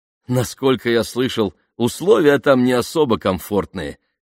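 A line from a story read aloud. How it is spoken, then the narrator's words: Laughing. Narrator (Russian): рассмеялся Бен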